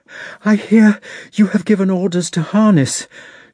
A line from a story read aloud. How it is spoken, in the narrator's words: she cried, panting